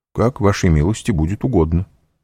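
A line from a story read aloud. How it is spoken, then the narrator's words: Plain. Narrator (Russian): сказал Вампа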